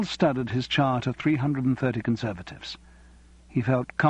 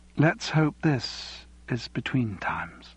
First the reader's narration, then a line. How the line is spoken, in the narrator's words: She gave a long sigh, and when they parted, she said